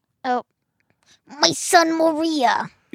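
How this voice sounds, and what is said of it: Exaggerated Italian-accented impression. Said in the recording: “That's a great impression of Ben. ... That was perfect Italian Ben.”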